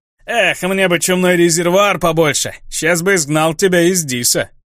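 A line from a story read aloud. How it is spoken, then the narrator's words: Roar. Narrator (Russian): он взревел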